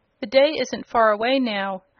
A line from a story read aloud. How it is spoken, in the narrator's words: her uncle sadly replied